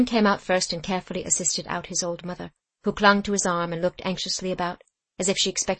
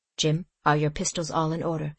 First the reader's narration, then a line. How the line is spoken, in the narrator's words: said George in a low, firm voice